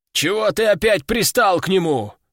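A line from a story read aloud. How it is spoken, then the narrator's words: Displeased bass voice. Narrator (Russian): Недовольно пробасил один из больных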